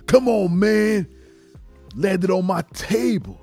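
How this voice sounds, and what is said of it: Imitates another person's voice. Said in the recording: “my Booker T impression. Was it good? I don't know if it was good.”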